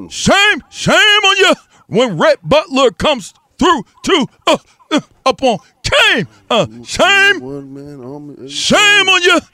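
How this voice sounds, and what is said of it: Imitates another person's voice. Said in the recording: “as I just sat there and said in my Osiris voice and that ODB voice”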